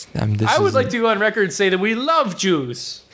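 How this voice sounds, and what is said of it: Put-on accent. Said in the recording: “What was that accent? ... I think it's supposed to be like Estefan Winsmore.”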